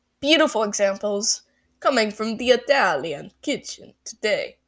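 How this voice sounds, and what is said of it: Bad put-on Italian accent. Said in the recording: “That was awful. That was an awful Italian impression.”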